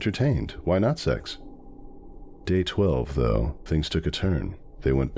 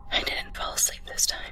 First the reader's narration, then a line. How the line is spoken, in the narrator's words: she whispered